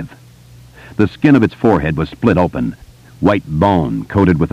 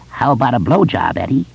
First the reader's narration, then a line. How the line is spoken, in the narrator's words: the apparition croaked, grinning